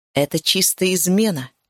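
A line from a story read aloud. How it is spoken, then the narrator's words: Grumble. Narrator (Russian): пробурчал Ашрай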